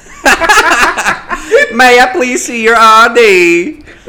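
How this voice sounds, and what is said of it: Put-on regional accent. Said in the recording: “you're talking to her in that accent”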